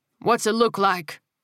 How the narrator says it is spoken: Landry snapped

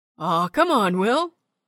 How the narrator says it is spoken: Xander exclaimed

